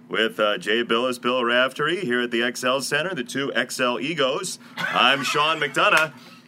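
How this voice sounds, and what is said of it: Imitates a sports broadcaster's voice. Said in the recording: “you do an impersonation of me ... You nailed it ... That's totally nailed.”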